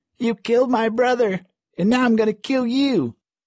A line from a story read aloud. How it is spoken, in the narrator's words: the other boy screaming